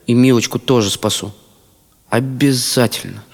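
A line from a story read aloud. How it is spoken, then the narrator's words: Quiet, to oneself. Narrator (Russian): про себя тихо добавил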